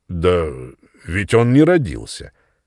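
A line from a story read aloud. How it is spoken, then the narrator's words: Firm factual objection. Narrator (Russian): возразил мистер Маккаски, строго придерживаясь фактов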